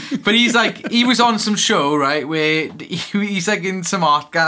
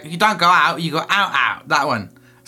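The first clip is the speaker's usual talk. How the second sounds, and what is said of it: Poor put-on Cockney accent. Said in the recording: “the Cockney geezer ... excuse my terrible accent”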